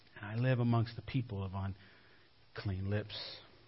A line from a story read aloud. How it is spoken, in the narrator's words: Isaiah cries out